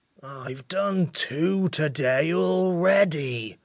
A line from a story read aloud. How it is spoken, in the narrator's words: it grumbled